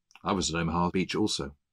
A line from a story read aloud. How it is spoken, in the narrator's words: older gentleman spoke up and said in a low voice